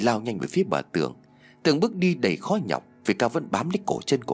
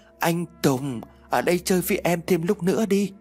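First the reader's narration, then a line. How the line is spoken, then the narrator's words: Eerie wind-like moaning. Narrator (Vietnamese): Nó rên rỉ những tiếng như là gió rít qua cửa sổ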